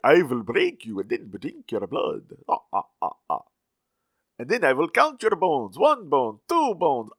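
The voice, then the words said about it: Villain voice sounding like Dracula. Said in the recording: “I don't know if that's the right accent. ... it sounds like Dracula”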